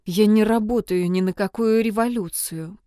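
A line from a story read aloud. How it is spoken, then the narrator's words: Clipped, through teeth. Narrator (Russian): процедила Кай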